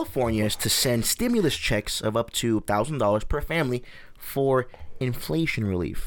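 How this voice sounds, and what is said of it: Usual voice. Nothing is said of it.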